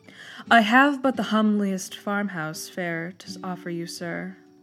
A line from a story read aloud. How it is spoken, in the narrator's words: said my entertainer